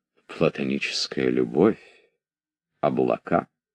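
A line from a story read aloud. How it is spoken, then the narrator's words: Muttering. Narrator (Russian): пробормотал он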